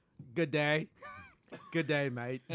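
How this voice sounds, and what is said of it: Put-on Australian accent. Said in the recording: “That was my Australian.”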